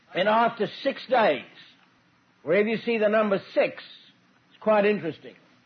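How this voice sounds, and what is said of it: Non-local accent, slow speech. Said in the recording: “I'll try and speak slowly because of the accent difficulty ... By the time I've been here a month, I'm speaking just like you all”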